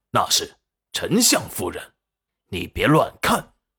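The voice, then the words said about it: Quiet, low-voiced warning. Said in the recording (Chinese): “小声警告的说道”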